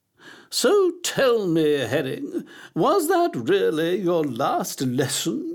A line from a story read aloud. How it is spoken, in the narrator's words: she asked, her voice bubbling like a pan of thick gloop on a stove